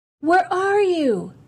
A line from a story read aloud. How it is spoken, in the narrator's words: he then shouted